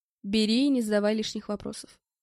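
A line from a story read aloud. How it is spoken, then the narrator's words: Plain. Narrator (Russian): сказал я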